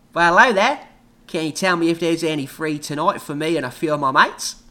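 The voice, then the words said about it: Thick put-on Australian accent. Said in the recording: “His thick Australian accent”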